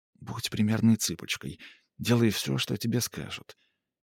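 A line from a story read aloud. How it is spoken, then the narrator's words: Whisper in the ear. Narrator (Russian): Мадлен лишь шепнула на ухо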